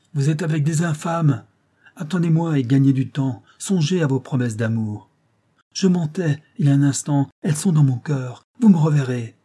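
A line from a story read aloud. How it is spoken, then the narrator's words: Young woman shouting. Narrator (French): la jeune fille cria, en français, à Nestor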